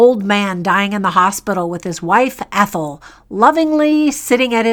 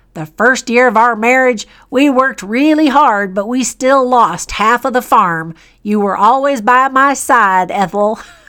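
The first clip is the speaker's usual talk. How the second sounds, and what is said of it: Put-on rustic farmer accent. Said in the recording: “Do you like my farmer accent?”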